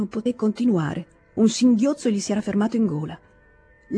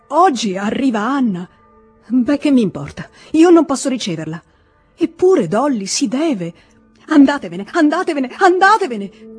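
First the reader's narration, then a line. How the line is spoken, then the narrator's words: Pained cry. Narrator (Italian): gridò lei senza guardarlo, come se questo grido fosse suscitato da un dolore fisico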